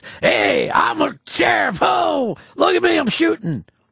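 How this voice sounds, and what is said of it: Gruff sheriff character voice. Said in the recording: “did this voice ... my acting tends to be a gruff voice”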